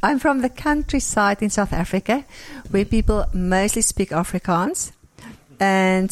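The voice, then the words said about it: South African accent. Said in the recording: “something that will instantly stand out is your accent ... So you're from South Africa.”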